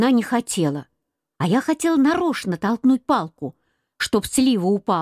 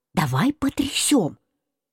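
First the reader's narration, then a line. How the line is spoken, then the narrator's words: Quiet. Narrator (Russian): сказал Марусе тихонько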